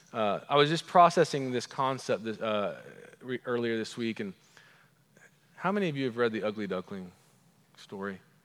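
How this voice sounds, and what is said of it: Oklahoman American accent. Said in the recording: “my Oklahoman accent”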